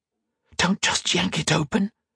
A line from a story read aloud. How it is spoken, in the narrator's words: whispered